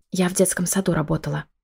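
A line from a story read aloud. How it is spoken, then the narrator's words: Whisper. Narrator (Russian): шепнула Мила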